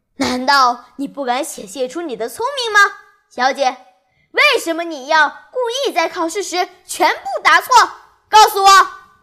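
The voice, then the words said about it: Harsh, unpleasant voice. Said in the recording (Chinese): “他用非常难听的声音说”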